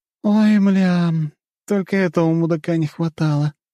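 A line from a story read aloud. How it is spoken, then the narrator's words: Groan. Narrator (Russian): простонала похоть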